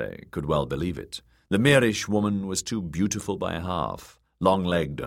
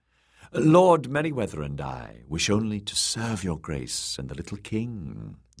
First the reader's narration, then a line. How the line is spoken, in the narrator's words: the woman purred